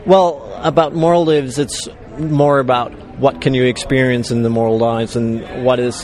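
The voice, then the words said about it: Danish accent. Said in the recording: “My Danish accent”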